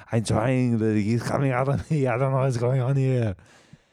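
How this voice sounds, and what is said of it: Strongman impression accent. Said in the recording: “do an Arnold impression ... It's just like a strong man accent I'm doing right now”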